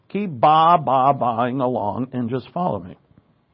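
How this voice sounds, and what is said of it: Imitates a sheep bleating. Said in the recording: “my imitation of a sheep”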